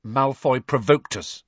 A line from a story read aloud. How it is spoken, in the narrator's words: said Harry stiffly